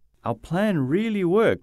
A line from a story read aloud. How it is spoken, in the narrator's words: says happily